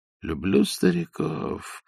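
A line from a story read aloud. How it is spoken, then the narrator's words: Whispered. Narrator (Russian): прошептал Остап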